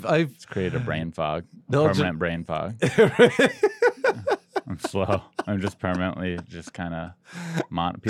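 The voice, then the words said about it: Flat monotone voice. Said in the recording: “people always ask me why I'm monotone... That's why I'm monotone”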